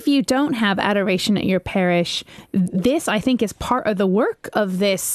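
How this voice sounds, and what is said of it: Usual voice. Nothing is said of it.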